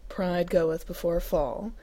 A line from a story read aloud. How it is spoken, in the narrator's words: he intoned in mock reproach